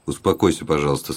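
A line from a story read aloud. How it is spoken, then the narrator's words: Plain. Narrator (Russian): сказал Дон Кондор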